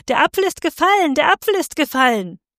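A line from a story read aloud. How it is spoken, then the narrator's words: Woman shouting from crowd. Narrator (German): schrie eine Weiberstimme aus dem Volk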